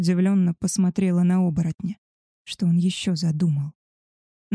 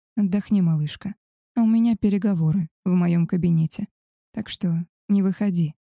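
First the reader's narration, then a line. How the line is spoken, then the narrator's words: Soft voice. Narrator (Russian): мягко сказал Альфа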